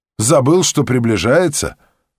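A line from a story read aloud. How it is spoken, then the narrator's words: Short laugh. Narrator (Russian): Владимир хохотнул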